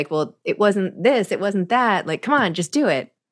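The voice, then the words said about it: Mimicking pushy people's voice. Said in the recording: “you sound like all the people saying those things ... I'm mimicking society at large.”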